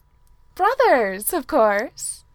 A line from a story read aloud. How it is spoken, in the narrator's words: Keely said with a bright and wild laugh